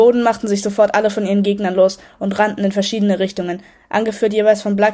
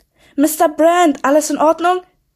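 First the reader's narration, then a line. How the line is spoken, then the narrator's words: Called out. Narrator (German): rief jemand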